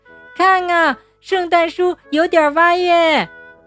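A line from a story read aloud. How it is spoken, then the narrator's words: Children exclaiming. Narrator (Chinese): 孩子们立刻叫了起来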